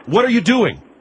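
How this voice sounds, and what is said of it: Yelling, raised voice. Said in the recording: “You're yelling at me. ... I'm yelling at you”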